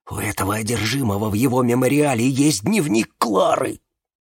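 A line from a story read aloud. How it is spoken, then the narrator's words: Sighing mumble. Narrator (Russian): Сделав глубокий вздох, он пробормотал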